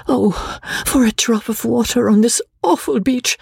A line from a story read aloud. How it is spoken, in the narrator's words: she cried in agony